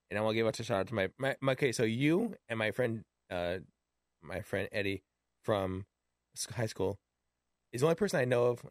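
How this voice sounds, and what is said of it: Worn, fading voice. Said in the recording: “I'm losing my voice”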